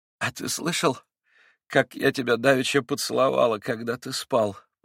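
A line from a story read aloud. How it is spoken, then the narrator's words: Timid babble. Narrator (Russian): пролепетала она ему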